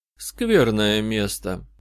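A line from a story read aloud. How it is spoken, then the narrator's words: Even, flat voice. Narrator (Russian): ровным голосом сказала она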